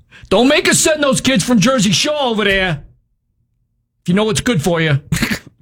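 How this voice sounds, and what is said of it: Put-on New Jersey accent. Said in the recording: “Like everybody in Jersey talks like that ... your impersonation”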